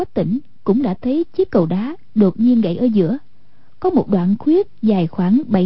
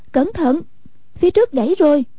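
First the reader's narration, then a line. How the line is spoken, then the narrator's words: Calling out. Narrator (Vietnamese): kêu lên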